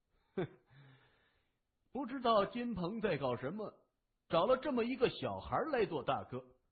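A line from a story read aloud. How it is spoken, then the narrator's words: Sneering middle-aged man. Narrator (Chinese): 一位50多岁、有些秃顶的中年人哼了一声，嘲笑地说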